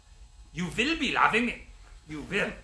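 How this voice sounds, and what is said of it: Drill sergeant with deep German accent. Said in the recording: “a drill sergeant with a deep German accent”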